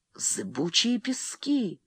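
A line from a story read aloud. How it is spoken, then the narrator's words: Terrified whisper. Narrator (Russian): с ужасом прошептал Фрэнсис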